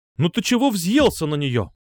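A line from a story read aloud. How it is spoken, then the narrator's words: Angry exclamation. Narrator (Russian): сердито воскликнула мама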